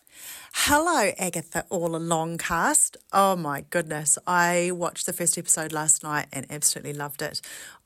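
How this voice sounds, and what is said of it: New Zealand accent. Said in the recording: “her lovely Kiwi accent”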